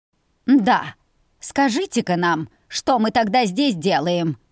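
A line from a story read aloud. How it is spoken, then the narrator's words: Snorting. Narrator (Russian): Фыркнула Гюмзу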